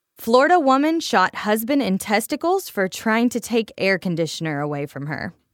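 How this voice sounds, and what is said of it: Slight Southern accent. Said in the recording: “it was my southern accent creeping in there.”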